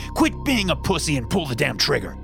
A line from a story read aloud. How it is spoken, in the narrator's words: he yelled